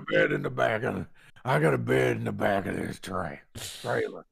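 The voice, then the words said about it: Imitates another person's voice. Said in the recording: “You do a very good impression”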